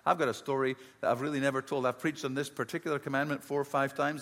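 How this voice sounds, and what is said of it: Scottish accent. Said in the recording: “I grew up in Scotland, as you can probably tell from my accent. I'm from the deep south of Scotland.”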